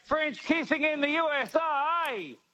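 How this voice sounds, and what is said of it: Sung put-on American accent. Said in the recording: “I'm going to sing to you an American accent ... that's heaps American.”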